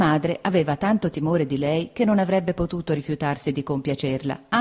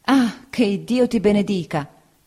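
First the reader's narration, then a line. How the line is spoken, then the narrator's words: Exclaimed. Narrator (Italian): esclamò la signora Bezze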